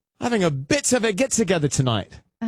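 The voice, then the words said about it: Put-on London English accent. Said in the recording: “if I were to be in London ... I speak English with an accent sometimes”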